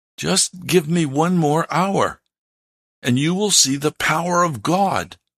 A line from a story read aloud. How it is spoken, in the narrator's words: urgently pleaded